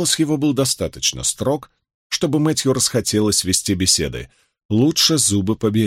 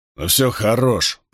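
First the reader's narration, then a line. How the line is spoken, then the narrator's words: Grumble. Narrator (Russian): проворчал Бромфилд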